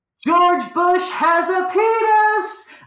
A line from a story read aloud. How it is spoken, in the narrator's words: I cried out for the whole second floor of Nordstrom to hear